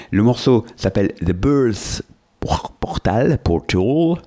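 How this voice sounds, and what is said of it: Exaggerated English pronunciation accent. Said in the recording (French): “Je vais arrêter avec mon accent aussi parce que je prends des cours.”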